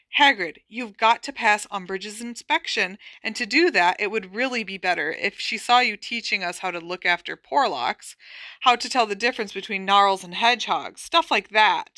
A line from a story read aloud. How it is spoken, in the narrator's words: said Hermione earnestly